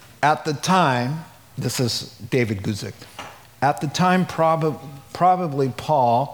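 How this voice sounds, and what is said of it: Usual voice. Nothing is said of it.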